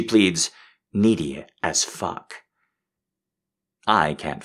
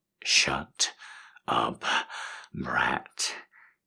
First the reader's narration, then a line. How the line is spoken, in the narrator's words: he groans